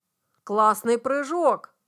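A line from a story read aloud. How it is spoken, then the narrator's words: Exclamation. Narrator (Russian): воскликнул Андрей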